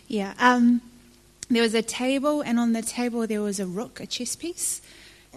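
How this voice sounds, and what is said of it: Speaks with a noticeable accent. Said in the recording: “Sorry, my accent.”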